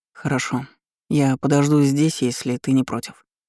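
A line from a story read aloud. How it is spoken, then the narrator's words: Serious tone. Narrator (Russian): серьезным тоном произнес Данилов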